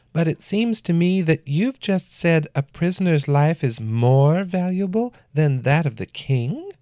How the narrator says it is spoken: the man said in an unsettlingly feminine voice

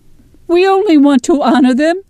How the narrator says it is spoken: Jeresh cries

